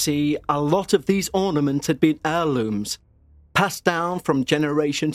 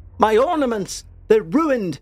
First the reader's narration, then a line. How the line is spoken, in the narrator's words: My mum cried out in despair